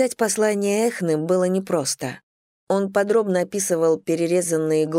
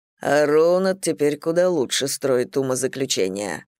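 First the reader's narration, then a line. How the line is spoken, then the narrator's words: Grumbling. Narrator (Russian): проворчал Томас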